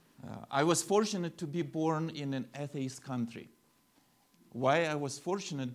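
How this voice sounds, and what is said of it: Speaks English with a noticeable accent. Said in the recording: “you probably sense my accent”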